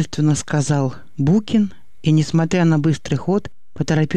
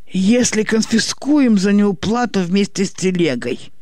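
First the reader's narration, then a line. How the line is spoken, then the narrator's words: Chuckling. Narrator (Russian): хохотнул Букин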